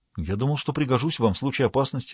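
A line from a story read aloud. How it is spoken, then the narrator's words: Plain. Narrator (Russian): ответил Гюстав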